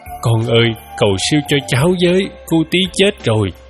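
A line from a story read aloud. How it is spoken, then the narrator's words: Tearful pleading. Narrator (Vietnamese): bác hai chạy qua khóc lóc bảo tôi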